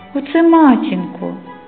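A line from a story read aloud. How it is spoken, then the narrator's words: Quiet. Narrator (Ukrainian): тихо промовила Явдоха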